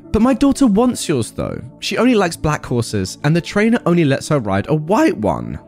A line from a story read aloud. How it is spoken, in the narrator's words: the Barn Witch snapped